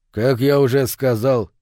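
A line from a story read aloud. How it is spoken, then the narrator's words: Calm reply. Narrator (Russian): спокойно ответил мотоциклист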